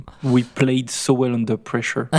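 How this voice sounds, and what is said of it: Put-on Worcestershire English accent. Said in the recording (French): “avec un accent ... du Worcestershire ... beaucoup moins du Kentucky que ce que tu as pu le faire”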